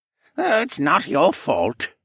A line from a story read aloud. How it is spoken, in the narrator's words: he grumbled